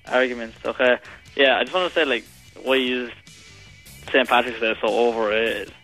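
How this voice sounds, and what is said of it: Speaks with an accent. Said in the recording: “there's got an accent.”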